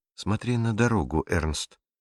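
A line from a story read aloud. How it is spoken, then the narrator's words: Quiet, smiling aunt. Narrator (Russian): тихо произнесла тетя Беатрис, но в ее голосе угадывалась улыбка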